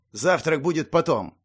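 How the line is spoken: Sharp. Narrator (Russian): резко проговорил Цнех

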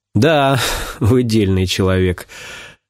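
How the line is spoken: Laughing. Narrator (Russian): тоже засмеялся я

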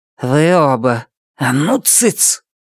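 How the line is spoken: Hissed. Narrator (Russian): Цветика прошипела

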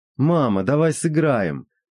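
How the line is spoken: Joining in, laughing. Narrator (Russian): присоединился к сестре Владимир, и они опять с Леной засмеялись

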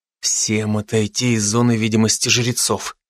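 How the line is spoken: Quiet command. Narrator (Russian): тихо велел я группе

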